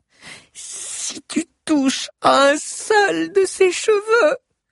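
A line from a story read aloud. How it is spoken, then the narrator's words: Hissed. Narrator (French): siffla Chrysante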